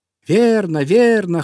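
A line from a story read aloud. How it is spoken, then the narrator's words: Birds shouting in chorus. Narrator (Russian): хором закричали птицы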